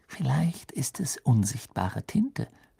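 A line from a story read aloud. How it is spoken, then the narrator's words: Whispered. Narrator (German): flüsterte sie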